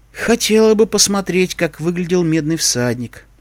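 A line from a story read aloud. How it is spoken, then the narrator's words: Bored sigh. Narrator (Russian): вздохнула Искорка, окончательно потеряв интерес к безумной попутчице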